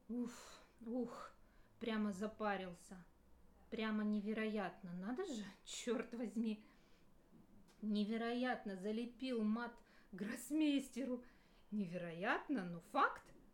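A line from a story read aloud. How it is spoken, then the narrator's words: Loud laughter. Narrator (Russian): захохотал он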